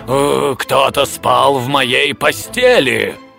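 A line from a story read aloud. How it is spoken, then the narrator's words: Growling father bear. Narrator (Russian): отец семейства зарычал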